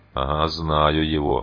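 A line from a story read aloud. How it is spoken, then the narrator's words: Gruff mutter. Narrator (Russian): буркнул угольщик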